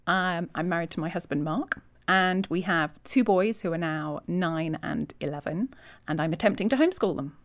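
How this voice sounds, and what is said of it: English Yorkshire accent. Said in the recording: “I noticed that accent. So you're from England? ... I'm from England, from Yorkshire.”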